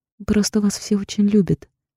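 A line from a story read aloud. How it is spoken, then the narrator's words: Sad smiling. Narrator (Russian): говорю ей, улыбаюсь ей грустно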